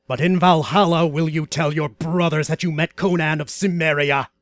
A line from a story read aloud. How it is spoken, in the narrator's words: growled the black-haired warrior